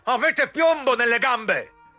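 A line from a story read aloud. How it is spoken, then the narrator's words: Shout. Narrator (Italian): gridò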